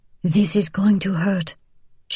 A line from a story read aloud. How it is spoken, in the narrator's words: she whispered